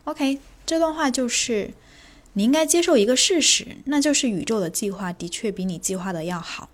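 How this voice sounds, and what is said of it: Soft, quiet, calm speaking voice. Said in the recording (Chinese): “今天说话声音比较小声一点...没有想很大声的去说话”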